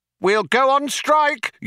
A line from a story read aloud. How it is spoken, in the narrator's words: yelled Vroom Fondle